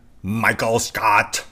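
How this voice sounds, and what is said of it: Imitates a TV character's voice. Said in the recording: “That was my best impression.”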